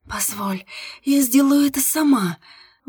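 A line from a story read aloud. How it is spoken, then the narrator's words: Breathy, into the ear. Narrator (Russian): выдохнула я Илье в ухо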